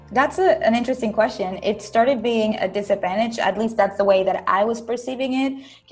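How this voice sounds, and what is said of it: Venezuelan Spanish accent in English. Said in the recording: “You've got a bit of an accent. ... originally from Caracas, Venezuela.”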